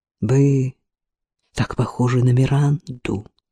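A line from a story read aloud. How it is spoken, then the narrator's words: Whisper. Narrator (Russian): прошептал оперный импресарио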